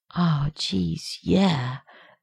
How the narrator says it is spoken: Rodney murmuring

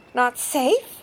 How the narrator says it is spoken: came a squeak

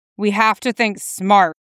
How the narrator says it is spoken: he snarled back

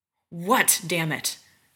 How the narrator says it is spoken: John snarls

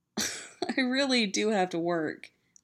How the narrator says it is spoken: says, laughing and breathless

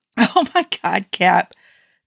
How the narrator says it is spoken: Tony wheezed

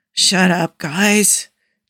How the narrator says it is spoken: Jake mumbles, eyes closed

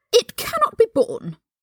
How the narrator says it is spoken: Draco cried

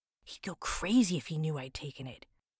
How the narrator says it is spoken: Cartman says in a whisper

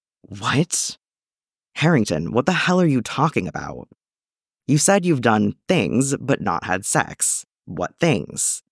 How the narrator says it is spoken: Steve sighed, obviously frustrated

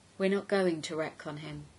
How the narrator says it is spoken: he said quietly

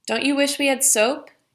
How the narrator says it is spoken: yells Raven to him, absurdly amused by the sight of him

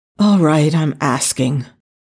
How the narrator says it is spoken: Daniel said wearily

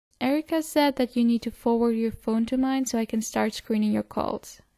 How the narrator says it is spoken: Styles says

